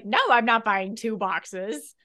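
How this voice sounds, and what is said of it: Squawky generic mom voice. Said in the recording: “best impression of my mom I've ever heard ... general mom ... Mom! A mom voice ... your mom has never squawked like that ... a bird”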